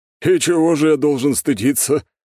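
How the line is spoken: Mocking question. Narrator (Russian): насмешливо спросил Владислав

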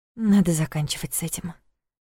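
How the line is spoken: Muttering. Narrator (Russian): пробормотала Саша

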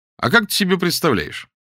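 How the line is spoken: Cheerful question. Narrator (Russian): спросил Саша, пожалуй, весело

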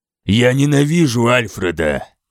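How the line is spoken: Growling. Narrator (Russian): прорычал я

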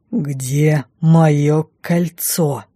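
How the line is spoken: Sudden, clipped, through teeth. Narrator (Russian): Вдруг раздельно процедил он

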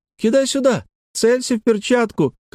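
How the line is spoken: Shout. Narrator (Russian): крикнула Лекси

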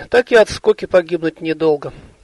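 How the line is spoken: Sighing. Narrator (Russian): она вздохнула

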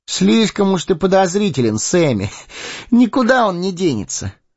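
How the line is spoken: Laughing. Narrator (Russian): рассмеялся Прода

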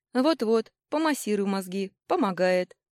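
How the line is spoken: Snorting remark. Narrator (Russian): хмыкнул

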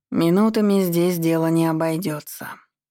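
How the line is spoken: Gloomy, weary man. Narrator (Russian): мрачно прокомментировал мужчина и устало

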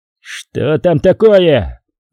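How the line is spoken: Full-throated bellow. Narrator (Russian): гаркнул Шах во всю силу своей капитанской глотки

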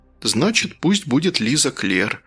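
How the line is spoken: Quiet. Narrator (Russian): тихо сказал

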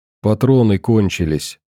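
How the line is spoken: Quiet. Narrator (Russian): тихо проговорила та

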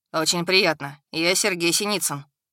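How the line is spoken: Calm young man. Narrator (Russian): спокойно ответил парень

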